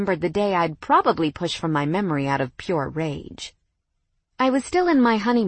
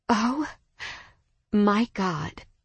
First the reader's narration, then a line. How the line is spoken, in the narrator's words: I breathed